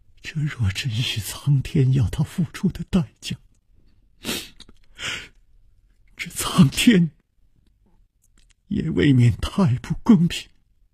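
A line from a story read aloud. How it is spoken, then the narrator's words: Trembling voice. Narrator (Chinese): 秋灵素颤声说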